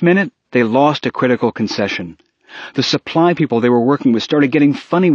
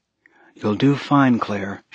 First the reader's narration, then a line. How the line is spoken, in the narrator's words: she murmured to herself